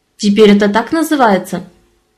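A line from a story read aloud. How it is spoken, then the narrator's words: Sharp. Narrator (Russian): резко обронила Даша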